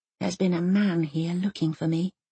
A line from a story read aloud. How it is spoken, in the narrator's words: whispers Elsa into its ear, trying to sound brave